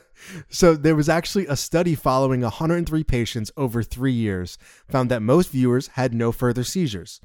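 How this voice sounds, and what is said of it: Southern American accent. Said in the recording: “that's my southern accent”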